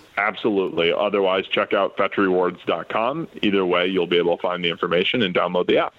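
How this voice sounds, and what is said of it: Smooth, polished radio-style voice. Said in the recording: “He has a good radio voice, huh?”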